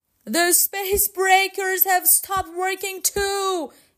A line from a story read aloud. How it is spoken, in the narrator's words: yelled Tiger